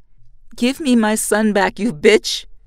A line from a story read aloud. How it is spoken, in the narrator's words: shout